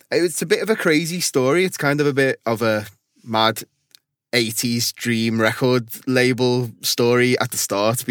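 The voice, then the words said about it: Scouse (Liverpool) accent. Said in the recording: “my Scouse accents”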